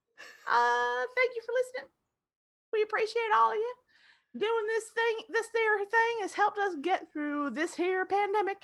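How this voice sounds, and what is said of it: Put-on Southern US accent. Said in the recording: “I have no right appropriating this accent because I am not from part of the country that this is an accent that comes naturally. But I've lived in North Carolina now enough times.”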